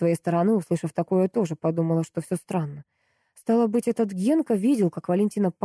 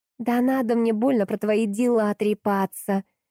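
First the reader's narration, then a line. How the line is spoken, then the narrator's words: Shouting girl. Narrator (Russian): закричала Дашка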